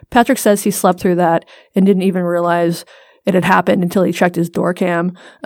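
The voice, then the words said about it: Strained, fading hoarse voice. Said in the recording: “I'm losing my voice”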